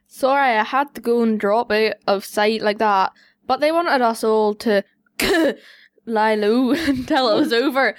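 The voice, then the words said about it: Broad Belfast accent. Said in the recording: “Have you got a good Belfast accent? ... I'll do it broad.”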